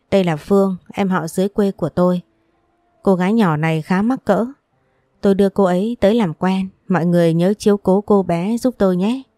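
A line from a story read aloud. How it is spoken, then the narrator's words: Friendly, smiling. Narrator (Vietnamese): mỉm cười với những người ngồi kia, giọng nói thân thiện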